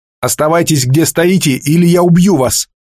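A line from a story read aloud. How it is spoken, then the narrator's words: Shouting. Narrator (Russian): крикнул Грен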